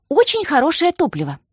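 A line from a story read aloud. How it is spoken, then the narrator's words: Brisk start, breaking off. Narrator (Russian): бодро начала и замолчала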